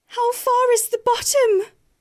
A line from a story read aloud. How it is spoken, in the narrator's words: she cried as she fell